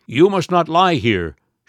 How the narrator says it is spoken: shouted the watchman

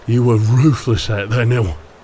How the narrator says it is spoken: Blin panted

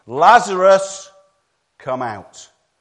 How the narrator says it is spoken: Jesus said in a loud voice

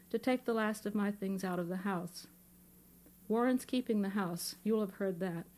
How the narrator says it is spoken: said in a calm voice

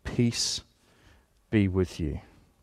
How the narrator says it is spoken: He comes tenderly, almost quietly, and his word to them is

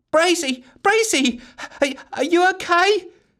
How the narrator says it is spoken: screamed Giggles into the darkness

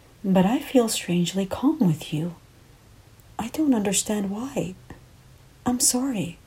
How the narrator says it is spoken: I said softly

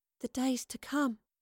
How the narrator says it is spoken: Astrid whispered

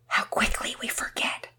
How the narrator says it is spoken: he whispered out of the hearing of the girls

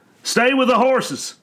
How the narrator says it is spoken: bellowed the old ranger, Harlan Wickham

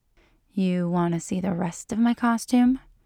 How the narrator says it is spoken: she purrs

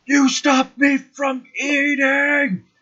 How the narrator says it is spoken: telepathy, yells

